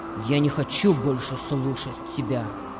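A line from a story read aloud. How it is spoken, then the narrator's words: Rough. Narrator (Russian): сказал он грубо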